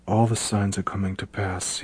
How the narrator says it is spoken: he muttered to himself

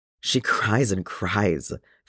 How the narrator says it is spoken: Feely said, his voice tense and dark

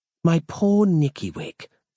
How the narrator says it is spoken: Samantha purred

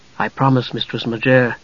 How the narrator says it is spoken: he said softly

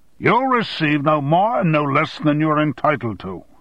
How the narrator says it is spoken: shouted Armstrong

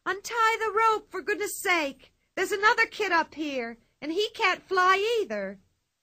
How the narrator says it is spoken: But Pippi yelled

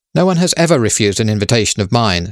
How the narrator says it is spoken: said Lady Neville

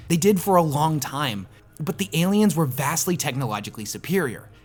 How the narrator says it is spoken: the young man exclaims through tear-filled eyes

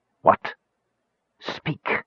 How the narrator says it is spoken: Raistlin hissed the word

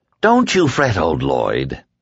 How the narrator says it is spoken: the dark man said cheerfully

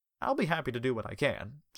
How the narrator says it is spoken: Jason replied

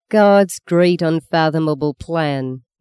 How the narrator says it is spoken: mocked the young man's voice

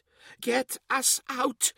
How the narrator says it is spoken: he pleaded in a small voice

